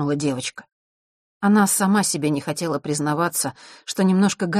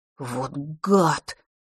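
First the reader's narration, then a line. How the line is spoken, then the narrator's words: Muttered through teeth. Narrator (Russian): процедил он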